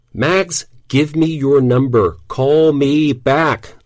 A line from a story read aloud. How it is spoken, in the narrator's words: I yelled